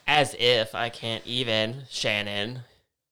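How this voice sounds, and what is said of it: Mocking Karen-style voice. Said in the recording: “That was my Karen impression”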